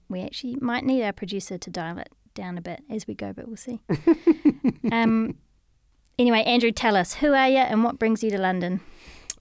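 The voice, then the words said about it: New Zealand accent. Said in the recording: “my Kiwi accent is probably going to get way more Kiwi ... We're at peak Antipodean levels”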